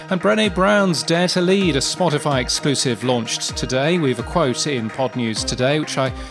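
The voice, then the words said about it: Aloof British accent. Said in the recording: “in my aloof British accent”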